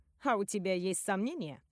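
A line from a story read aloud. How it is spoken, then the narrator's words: Snorting. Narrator (Russian): хмыкнула Катерина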